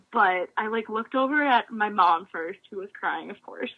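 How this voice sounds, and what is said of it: Choked-up, emotional voice. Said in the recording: “I feel like I'm getting choked up as I'm talking about it”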